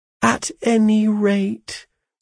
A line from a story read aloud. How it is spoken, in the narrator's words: said my mother